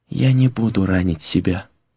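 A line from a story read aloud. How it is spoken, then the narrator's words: Very quiet whisper. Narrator (Russian): прошептала она очень тихо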